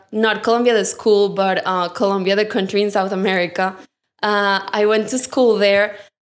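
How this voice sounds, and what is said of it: Colombian accent. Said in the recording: “I don't know if you can probably tell by my accent, I'm from Colombia.”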